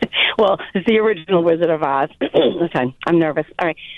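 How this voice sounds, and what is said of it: Usual voice. Nothing is said of it.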